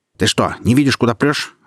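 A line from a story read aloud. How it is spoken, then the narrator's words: Barking snap. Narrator (Russian): рявкнула она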